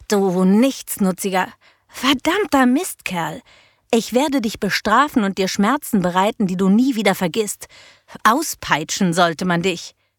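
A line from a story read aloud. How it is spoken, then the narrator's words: Hiss. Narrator (German): Sie ... zischte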